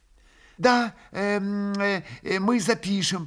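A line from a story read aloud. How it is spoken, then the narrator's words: Timid babbling. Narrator (Russian): пролепетал Николай Парфенович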